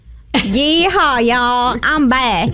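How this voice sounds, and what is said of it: Put-on Texan accent. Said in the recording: “back from Texas... You got an accent?”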